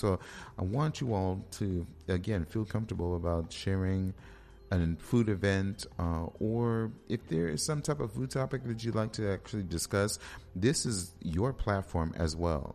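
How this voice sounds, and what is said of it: Hoarse, strained voice. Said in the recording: “My voice, man. ... I'm losing my voice.”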